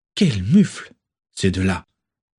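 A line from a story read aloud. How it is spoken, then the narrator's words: Sighed. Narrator (French): soupira-t-elle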